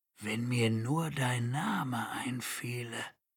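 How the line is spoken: Murmuring. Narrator (German): murmelte Roden

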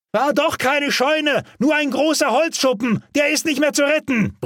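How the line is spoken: Shouting over roaring noise. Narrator (German): brüllte Albert über den Motorenlärm und das Brausen der Flammen hinweg

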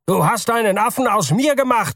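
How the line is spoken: Shouted. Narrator (German): schrie Mr

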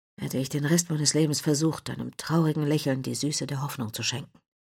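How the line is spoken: Soft, quiet. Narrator (German): sprach leise

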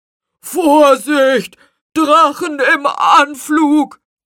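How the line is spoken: Calling out. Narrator (German): rief Lucius

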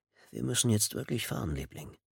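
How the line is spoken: Murmured into her ear. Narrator (German): raunte er ihr ins Ohr

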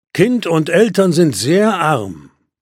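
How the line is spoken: Plain. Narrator (German): sagte der Stern

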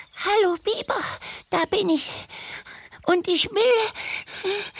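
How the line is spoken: Gasping. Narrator (German): japste sie

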